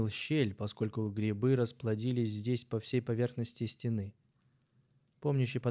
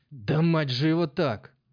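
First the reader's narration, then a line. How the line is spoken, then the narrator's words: Shout. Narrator (Russian): крикнул он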